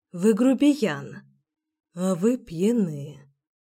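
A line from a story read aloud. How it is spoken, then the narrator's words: Tender whisper. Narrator (Russian): нежно прошептал он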